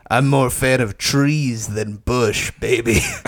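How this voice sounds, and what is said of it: Poor imitation of a cartoon character. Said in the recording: “terrible Tigatron impression”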